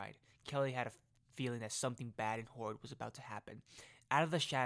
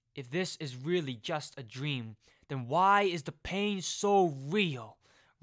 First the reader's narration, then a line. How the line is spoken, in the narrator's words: Reynolds yelled